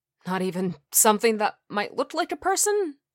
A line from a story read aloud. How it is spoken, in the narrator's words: I croak